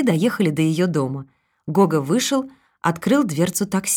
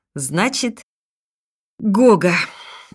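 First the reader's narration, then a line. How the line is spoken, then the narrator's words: Sighing. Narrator (Russian): Екатерина вздохнула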